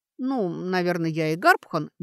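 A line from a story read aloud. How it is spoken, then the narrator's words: Uncertain suggestion. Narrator (Russian): неуверенно предложила Сашка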